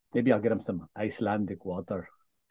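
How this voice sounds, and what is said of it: Put-on Icelandic-style accent. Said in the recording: “what kind of accent is that? Iceland.”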